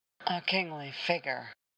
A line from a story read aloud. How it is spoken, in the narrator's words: Boba muttered